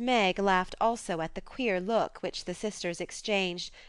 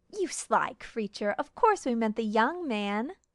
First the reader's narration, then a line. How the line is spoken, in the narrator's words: exclaimed Miss Bell, laughing